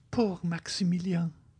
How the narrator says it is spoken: murmured Valentine

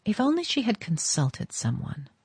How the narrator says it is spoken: Vanderluyden murmured

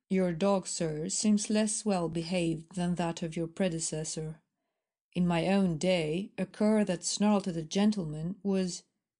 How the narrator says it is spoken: Aram was evidently annoyed at his reception, he said stiffly

